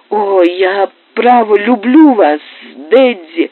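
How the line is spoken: Sobbing. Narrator (Russian): всхлипывала Лу

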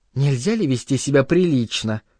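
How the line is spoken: Quiet but angry. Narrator (Russian): Негромко, но сердито сказала она

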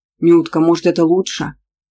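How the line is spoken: Mumble. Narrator (Russian): пробормотал папа

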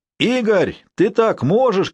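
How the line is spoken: Group shouting. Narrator (Russian): кричали американцы

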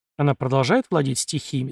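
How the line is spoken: Plain. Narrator (Russian): спросил я

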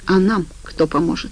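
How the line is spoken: Sighing beaver. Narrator (Russian): вздохнул бобер

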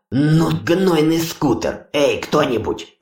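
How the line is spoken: Growled. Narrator (Russian): прорычал Ури

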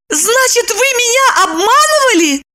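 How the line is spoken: Shout. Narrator (Russian): закричала она

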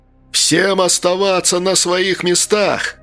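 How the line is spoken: Booming thunderous shout. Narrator (Russian): Голос Качки прогремел, как пушечный выстрел

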